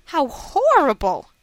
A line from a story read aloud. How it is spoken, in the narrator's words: I exclaimed